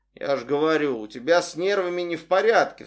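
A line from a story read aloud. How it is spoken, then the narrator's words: Sigh. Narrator (Russian): вздохнул он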